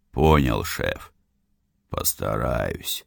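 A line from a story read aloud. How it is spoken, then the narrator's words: Less gloomy reply. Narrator (Russian): уже менее мрачно ответил мне Святов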